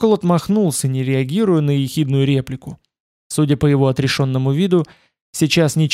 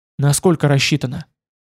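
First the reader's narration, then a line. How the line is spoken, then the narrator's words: Quiet question. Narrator (Russian): Уткин спросил тихо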